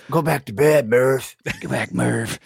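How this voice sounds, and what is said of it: Breathy imitation of another person's voice. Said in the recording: “good Matthew McConaughey impression ... You just got to be real breathy”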